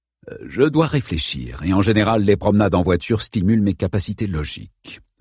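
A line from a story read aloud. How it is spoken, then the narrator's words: Plain. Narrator (French): répondit Holmes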